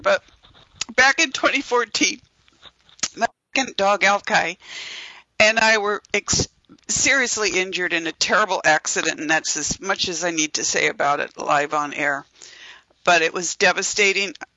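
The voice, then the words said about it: Emotional, strained voice. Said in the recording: “I'm sorry, I'm getting emotional here”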